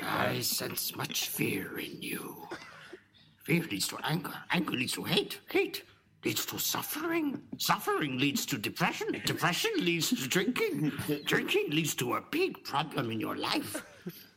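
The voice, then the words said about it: Yoda character voice impression. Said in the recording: “That's actually a really good Yoda impression”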